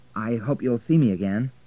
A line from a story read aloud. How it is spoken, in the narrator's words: said Richard